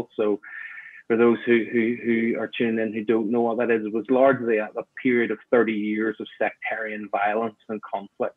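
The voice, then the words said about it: Northern Irish accent. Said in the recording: “you'll know, I guess, already from my accent. I was born in Northern Ireland, grew up in Belfast”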